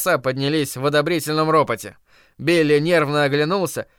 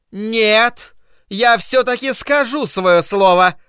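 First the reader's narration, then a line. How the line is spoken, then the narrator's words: Woman shouting. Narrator (Russian): прокричала миссис Кармоди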